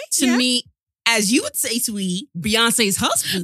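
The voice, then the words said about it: Exaggerated put-on accent. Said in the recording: “this accent's mad”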